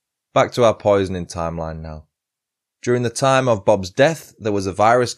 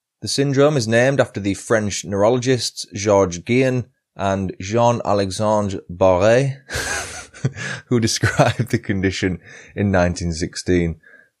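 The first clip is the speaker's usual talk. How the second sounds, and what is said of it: Put-on French accent on names. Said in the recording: “My French accent is spot on, isn't it?”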